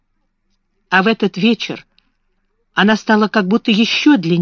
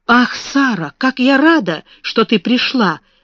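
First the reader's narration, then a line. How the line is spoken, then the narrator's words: Exclaimed. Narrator (Russian): воскликнула она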